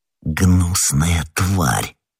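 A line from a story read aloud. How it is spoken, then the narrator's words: Muttering. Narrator (Russian): пробормотал Д'Артаньян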